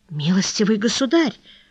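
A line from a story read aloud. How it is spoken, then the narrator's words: Flustered mumbling. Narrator (Russian): пробормотал столяр, окончательно растерявшись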